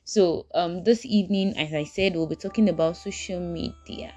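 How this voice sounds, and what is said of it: Speaking very fast. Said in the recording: “I'm talking so fast.”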